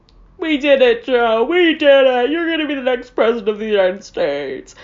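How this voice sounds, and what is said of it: Imitates another person's voice. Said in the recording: “That's my Kamala Harris impression. Worst one you ever heard.”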